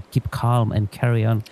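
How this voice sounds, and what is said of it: Put-on posh British accent. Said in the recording (Spanish): “bien qué acento, ¿eh? ... he pensado que estaba aquí la reina de Inglaterra”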